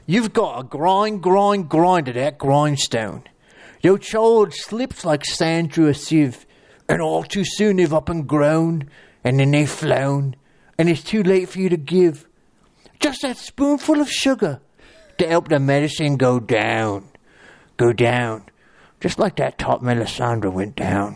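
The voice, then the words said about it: Put-on Flea Bottom accent. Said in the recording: “you get to do the Flea Bottom accent”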